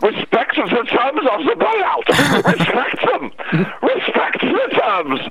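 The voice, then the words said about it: Exaggerated mock German accent. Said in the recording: “you hear that suggestion in a German accent.”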